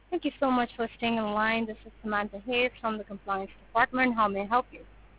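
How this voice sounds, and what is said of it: Strong accent, hard to understand. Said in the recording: “It's hard to understand you, though, with your accent.”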